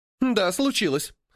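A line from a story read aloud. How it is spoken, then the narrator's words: Snorting. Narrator (Russian): фыркнула Гремучка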